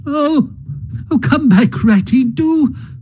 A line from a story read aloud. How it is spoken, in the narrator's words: cried the mole